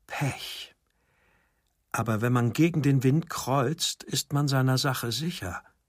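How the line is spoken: Murmuring. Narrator (German): murmelte

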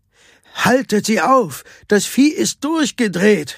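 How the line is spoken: Shouted. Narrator (German): schrie er

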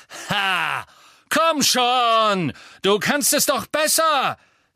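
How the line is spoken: Echoing shout in vault. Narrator (German): rief er, und seine Stimme hallte in dem Gewölberaum wieder

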